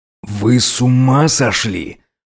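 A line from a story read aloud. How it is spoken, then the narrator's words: Harsh growl through teeth. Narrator (Russian): жестко прорычал сквозь зубы на них Горностай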